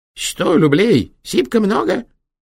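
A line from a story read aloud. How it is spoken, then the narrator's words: Stern squeak. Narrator (Russian): строго пропищал он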